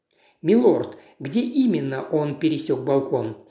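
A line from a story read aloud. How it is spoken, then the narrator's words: Plain. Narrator (Russian): спросил он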